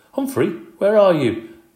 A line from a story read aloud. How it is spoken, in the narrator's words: Magic Mitch called out